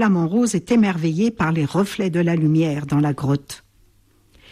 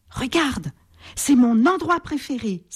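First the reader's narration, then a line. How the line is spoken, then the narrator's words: Joyful exclamation. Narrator (French): s'exclame-t-il joyeusement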